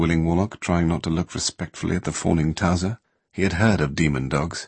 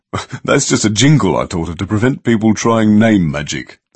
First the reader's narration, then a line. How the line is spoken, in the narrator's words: the small man said, laughing rather